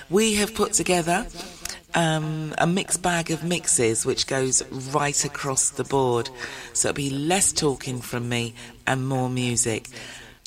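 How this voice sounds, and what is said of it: Strained, failing voice. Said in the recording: “You can hear that my voice has gone this week, and so we're going to preserve it”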